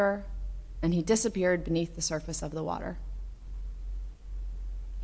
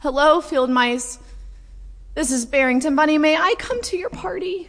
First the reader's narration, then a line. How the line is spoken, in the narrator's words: wind was howling so loudly, sobbing so much that no one heard him